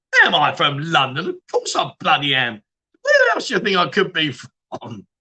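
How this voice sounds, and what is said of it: London English accent. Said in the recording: “are you from the UK? ... London or Southwest London to like Wandsworth ... Can you not tell by my accent? ... are you being sarcastic?”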